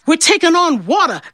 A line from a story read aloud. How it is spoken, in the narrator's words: the captain cried